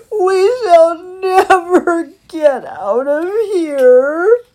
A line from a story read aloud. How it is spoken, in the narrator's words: cried Christopher